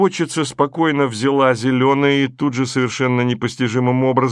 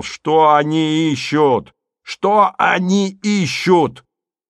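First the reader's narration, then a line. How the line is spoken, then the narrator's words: Sudden yell. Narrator (Russian): вдруг неожиданно заорал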